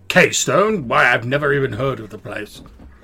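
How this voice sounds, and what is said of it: Strange character voice. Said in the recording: “in a strange voice”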